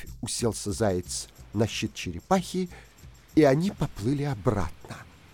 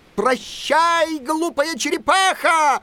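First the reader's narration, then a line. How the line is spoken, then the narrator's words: Shouting. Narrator (Russian): закричал он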